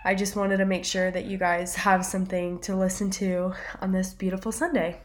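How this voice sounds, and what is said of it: Congested, slightly off voice. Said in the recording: “really bad head cold ... my voice sounds a little bit weird”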